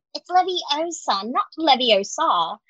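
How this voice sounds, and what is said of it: Poorly imitated character accent. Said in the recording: “that was so Thank bad. It's such a bad accent.”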